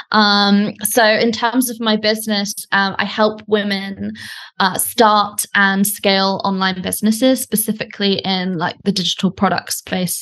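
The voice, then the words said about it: British accent. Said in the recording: “as you can probably tell from my accent, I'm British”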